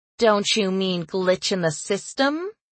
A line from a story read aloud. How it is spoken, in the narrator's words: I asked, purposely making my voice snide